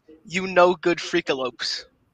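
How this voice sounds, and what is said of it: Game character voice. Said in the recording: “in your crypto voice”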